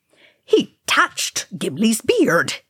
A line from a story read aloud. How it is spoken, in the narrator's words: he snapped